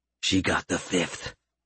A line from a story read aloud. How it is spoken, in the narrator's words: Gerald muttered